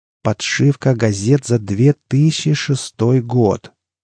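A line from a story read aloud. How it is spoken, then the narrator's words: Slow, condescending. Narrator (Russian): Медленно, как будто разговаривал с идиотом, повторил Бычок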